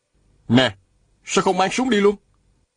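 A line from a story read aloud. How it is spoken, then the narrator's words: Shouted. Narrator (Vietnamese): Viên Thừa Chí la lên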